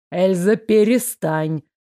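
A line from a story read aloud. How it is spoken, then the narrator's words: Howling. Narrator (Russian): взвыл Фредерик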